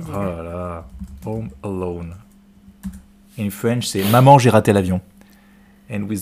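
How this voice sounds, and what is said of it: Usual voice. Nothing is said of it.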